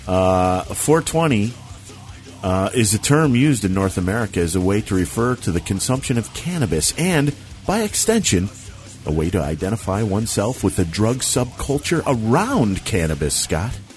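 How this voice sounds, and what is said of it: Radio announcer voice. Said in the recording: “You like my radio voice there?”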